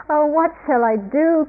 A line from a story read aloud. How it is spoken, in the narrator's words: cried